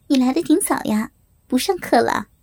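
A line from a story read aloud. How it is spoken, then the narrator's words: Smiling. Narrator (Chinese): 我冲他笑笑，对他说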